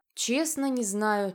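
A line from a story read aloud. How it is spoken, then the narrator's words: Heavy sigh. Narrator (Russian): тяжело вздохнула я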